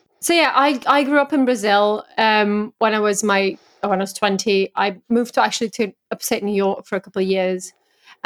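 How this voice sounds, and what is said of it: English accent. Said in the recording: “you have such a stereotypically English accent to my ear ... it's like you have an English accent”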